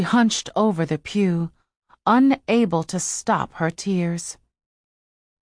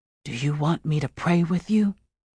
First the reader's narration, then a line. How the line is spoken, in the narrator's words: whispered